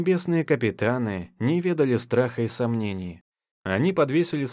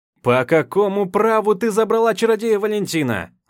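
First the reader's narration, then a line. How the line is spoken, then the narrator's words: Yelling. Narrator (Russian): Заорал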